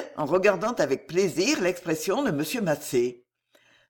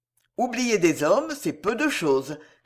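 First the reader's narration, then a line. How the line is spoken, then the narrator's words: Laughing reply. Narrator (French): répondit en riant l'abbé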